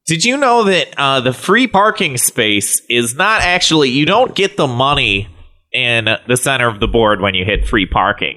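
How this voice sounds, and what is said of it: Put-on Midwestern accent. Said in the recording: “my impression of a Midwesterner who's really into the game Monopoly”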